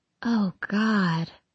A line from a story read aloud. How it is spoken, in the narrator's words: she moans, both horrified and delighted at even the possibility